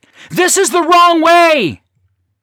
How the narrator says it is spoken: hollered

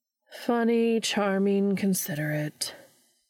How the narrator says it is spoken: Meg repeated flatly

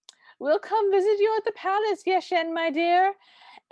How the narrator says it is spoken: sort of hollers

